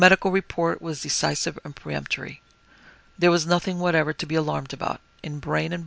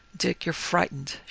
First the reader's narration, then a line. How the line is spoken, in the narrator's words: she said quietly